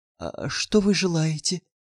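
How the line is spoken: Small frightened timid shopgirl. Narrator (Russian): Маленькая продавщица испуганно выглянула из-за прилавка и робко спросила

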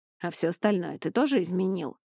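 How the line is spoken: Amused snort. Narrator (Russian): хмыкнул Эней

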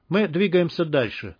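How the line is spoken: Calm. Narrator (Russian): спокойно сказал топор

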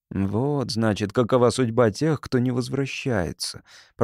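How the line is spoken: Muttered. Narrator (Russian): пробормотал Тирай

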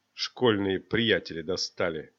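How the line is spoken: Quiet. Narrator (Russian): добавил он тихо

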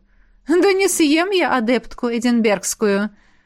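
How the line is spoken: Female mentor laughing. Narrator (Russian): рассмеялась наставница

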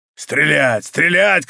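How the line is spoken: Shouted. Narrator (Russian): кричал Мордаун

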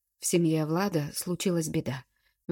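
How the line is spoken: Father's sigh. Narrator (Russian): вздохнул отец

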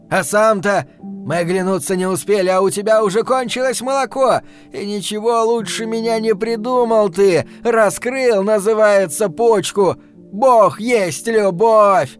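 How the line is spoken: Clownish shout. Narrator (Russian): Фиглярски выкрикнул он

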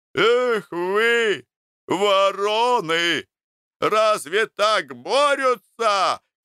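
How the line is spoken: Shouting from afar. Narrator (Russian): кричал с балкона Груздев

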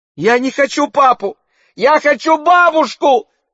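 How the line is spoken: Childlike scream. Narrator (Russian): закричала Фиона, совершенно как шестилетняя девочка

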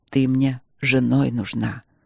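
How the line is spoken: Dull harsh rumble. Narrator (Russian): Пророкотал Нори глухо и жестко

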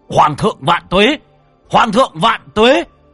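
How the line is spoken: Army roaring. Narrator (Vietnamese): Đại quân gào thét

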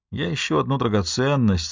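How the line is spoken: Bored tone. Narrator (Russian): сообщил Майло скучающим тоном

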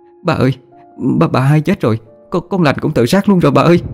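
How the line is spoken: Sobbing, pleading. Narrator (Vietnamese): Mén khóc lóc thảm thiết, cầu xin

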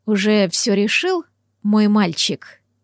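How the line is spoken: Quiet, lazy. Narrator (Russian): Тихо, даже как-то лениво спросил он у Макса

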